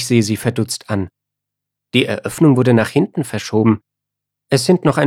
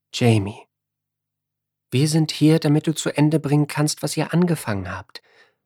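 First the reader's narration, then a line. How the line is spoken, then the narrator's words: Gentle woman. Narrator (German): sagt sie sanft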